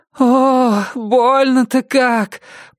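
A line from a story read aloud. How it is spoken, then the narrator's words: Moaning in pain. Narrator (Russian): простонала женщина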